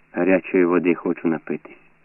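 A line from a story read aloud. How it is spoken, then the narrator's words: Said calmly. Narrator (Ukrainian): проказав спокійно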